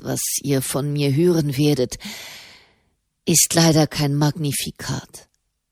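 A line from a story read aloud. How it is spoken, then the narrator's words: Sighing. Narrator (German): seufzte der Papst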